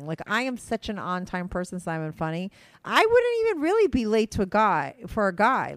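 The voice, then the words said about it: Fast, peppy excited speech. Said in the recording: “why I'm talking so fast ... You sound a little more peppy today.”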